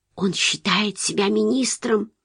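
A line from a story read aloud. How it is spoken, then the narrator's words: Mother whispering. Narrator (Russian): шепнула мать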